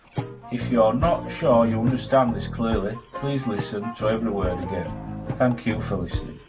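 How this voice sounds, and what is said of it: Bright, smiling Leeds accent. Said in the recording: “your Leeds accent now is way too bright ... I realized I was just smiling through it ... It's tough to do a Leeds accent with a smile ... my local accent ... West Yorkshire and the city of Leeds”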